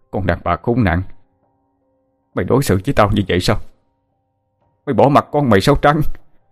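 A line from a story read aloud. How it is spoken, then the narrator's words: Father yelling angrily. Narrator (Vietnamese): tiếng bố quát tháo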